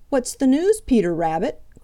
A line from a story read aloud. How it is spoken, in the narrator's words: cried Redwing